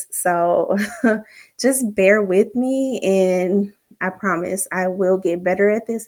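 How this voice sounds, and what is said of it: Shaky, nervous voice. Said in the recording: “if you could just hear the shakiness in my voice, because I'm nervous”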